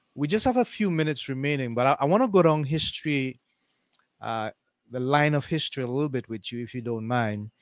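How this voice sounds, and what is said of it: Speaker with a noticeable accent. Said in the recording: “I couldn't quite understand your accent.”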